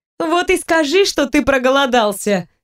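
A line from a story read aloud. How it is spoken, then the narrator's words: Laughing. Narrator (Russian): рассмеялась Саша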